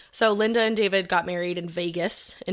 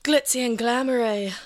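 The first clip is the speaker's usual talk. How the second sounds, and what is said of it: Moira Rose impression. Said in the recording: “that was a really good Moira Rose impression ... You even had, like, the ... Voice ... perfect ... Hi, I'm Catherine O'Hara.”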